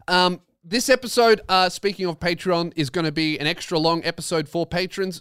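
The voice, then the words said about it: Australian man's accent. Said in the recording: “Me, an Australian man talking like an Australian man”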